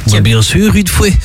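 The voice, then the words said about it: Put-on Belgian accent, done badly. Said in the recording (French): “Oh, cet accent. ... Je le fais très mal en plus”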